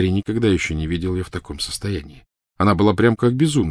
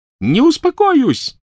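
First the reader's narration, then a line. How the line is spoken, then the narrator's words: Shrieking. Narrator (Russian): завизжала она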